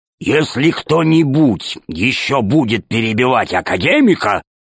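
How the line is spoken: Growl. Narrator (Russian): зарычал Громозека

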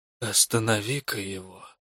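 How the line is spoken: Whisper. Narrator (Russian): Дядька сказал мне, почему-то шепотом

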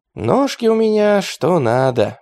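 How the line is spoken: Dreamy sigh. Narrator (Russian): мечтательно вздохнул атаман

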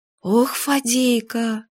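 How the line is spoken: Surprised, slightly frightened sigh. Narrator (Russian): Вздохнула Юля, но уже не насмешливо, а удивленно и даже чуточку испугана

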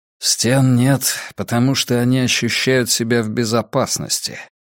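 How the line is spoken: Grumbling. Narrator (Russian): проворчал Драккайнен

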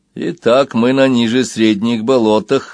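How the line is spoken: Calm statement. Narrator (Russian): спокойно констатировал Банкан

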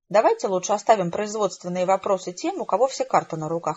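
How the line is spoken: Plain. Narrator (Russian): ответил Брэдшоу

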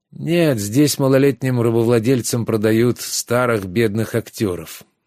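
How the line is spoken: Gloomy reply. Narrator (Russian): мрачно ответили с кушетки

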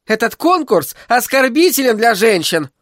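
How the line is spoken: Defiant, slightly embarrassed shout. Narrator (Russian): выкрикнула Мира Крюс с вызовом, но немного смущенно

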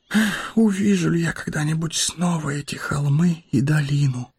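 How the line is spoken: Whisper. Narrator (Russian): прошептал он

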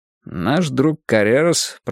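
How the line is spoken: Muttered. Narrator (Russian): пробормотал я

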